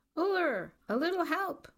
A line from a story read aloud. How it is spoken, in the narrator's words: A skier began to shout